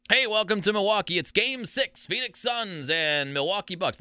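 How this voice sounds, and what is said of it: Mike Breen play-by-play impression. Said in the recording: “That's my best Mike Breen impersonation”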